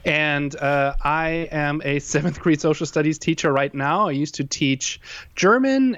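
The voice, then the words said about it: German accent in English. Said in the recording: “I am originally from Germany. That's why I have that weird, what would you call it, accent.”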